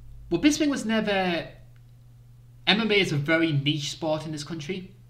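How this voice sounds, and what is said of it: Northeast English accent. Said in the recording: “I am a Brit. It's a strange British accent from the northeast of England.”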